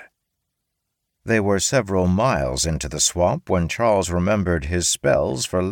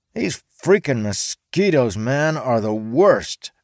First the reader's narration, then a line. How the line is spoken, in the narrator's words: Python Mike whined